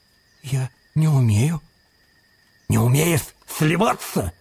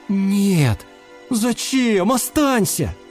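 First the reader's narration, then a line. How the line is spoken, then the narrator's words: Pleading. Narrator (Russian): взмолился хамелеончик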